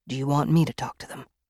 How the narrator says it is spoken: Van asked softly

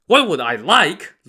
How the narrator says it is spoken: Lu Da said angrily

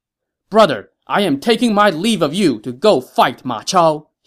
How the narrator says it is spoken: shouted

